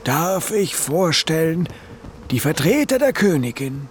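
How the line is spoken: Dignified call. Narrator (German): rief sie würdevoll

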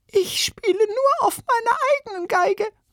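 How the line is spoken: Squeaky voice. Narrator (German): piepste eine Violinistin

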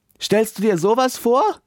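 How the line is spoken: Calling out. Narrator (German): ruft er

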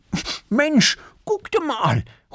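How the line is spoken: Calling out. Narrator (German): ruft Erik

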